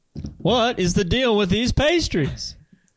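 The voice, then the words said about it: Imitates another person's voice. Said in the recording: “my Jerry Seinfeld impersonation ... impression of Jimmy Fallon doing Jerry Seinfeld”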